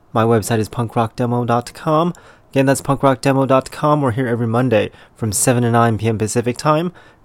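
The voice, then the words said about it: Congested, deeper radio voice. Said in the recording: “my allergies are killing me, so I've got my radio voice today”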